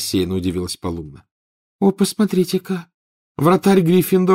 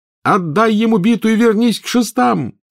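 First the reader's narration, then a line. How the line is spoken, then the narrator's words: Yelling. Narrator (Russian): завопил Гарри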